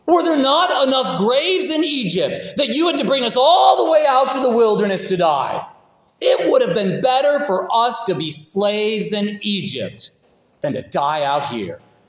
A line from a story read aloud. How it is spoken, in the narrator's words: They yelled at Moses